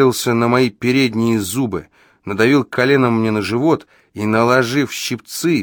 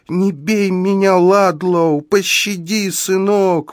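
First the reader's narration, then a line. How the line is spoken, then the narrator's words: Pleading. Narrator (Russian): взмолилась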